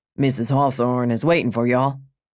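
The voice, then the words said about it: Texan cowboy accent. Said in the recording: “I love the Texan accent”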